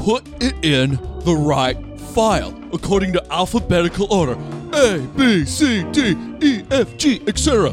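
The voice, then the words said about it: Imitates another person's voice. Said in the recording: “that your Nicolas Cage impression?... That was a great Nicolas Cage... You were spot on with the delivery, but just the voice was... It's the ... version of Nicolas Cage”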